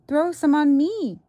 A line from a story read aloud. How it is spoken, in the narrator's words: cried Avery